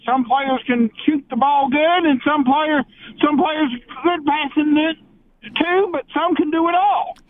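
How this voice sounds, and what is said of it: Slight Southern American accent. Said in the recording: “it sounds like a bit of a southern accent”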